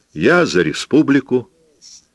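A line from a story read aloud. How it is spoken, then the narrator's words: Joyful. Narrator (Russian): радостно сказала жена Пабло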